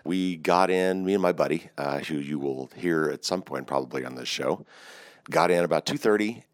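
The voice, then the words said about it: Hoarse voice. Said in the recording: “You could probably tell my voice is already a little bit hoarse.”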